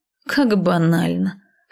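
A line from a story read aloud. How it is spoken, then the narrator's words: Scoffing. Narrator (Russian): хмыкнула я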